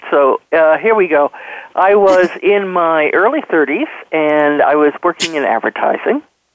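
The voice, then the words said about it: New York City accent. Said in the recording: “you may still hear a little bit of my accent ... some of my New York City region dialect”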